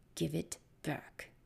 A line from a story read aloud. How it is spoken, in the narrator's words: said, her voice low